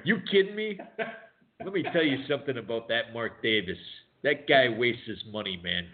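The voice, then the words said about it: Imitates another person's voice. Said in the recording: “Your imitation of him is about 20 times better than your Trump ... a very good imitation”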